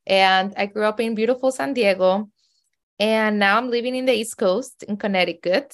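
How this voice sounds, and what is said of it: Heavy Mexican accent. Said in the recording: “my heavy accent. I'm originally from Mexico City. ... I still have an accent.”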